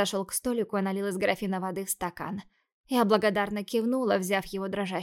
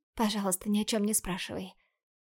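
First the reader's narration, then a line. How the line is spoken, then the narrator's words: Whisper, eyes closed. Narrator (Russian): прошептала я, так и не открыв глаза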